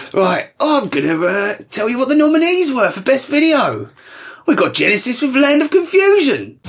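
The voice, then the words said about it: Character voice with slight Australian accent. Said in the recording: “It's Reginald Digsby ... I don't know why he's got a bit Australian ... He's picked up the accent.”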